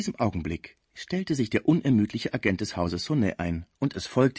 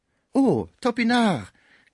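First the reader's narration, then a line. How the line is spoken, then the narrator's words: Surprised exclamation. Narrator (German): rief Schmucke beim Anblick des Burschen aus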